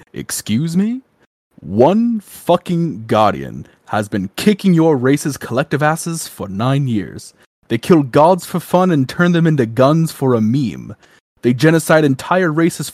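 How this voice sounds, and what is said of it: Impression of Zavala. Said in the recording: “I'll even do my best Zavala impression for it, too.”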